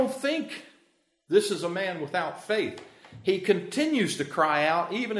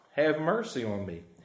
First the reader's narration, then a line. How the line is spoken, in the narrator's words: he cries out